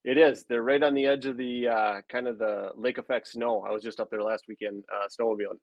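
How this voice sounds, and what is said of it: Northern Wisconsin accent. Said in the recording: “maybe based on my accent, I'm from Rylander, so northern Wisconsin”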